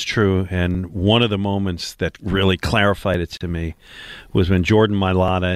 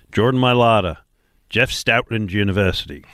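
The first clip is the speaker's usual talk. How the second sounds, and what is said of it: Put-on Australian-style accent. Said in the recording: “Don't know that my accent worked ... I thought I was co-hosting the show with Russell Crowe for a minute there”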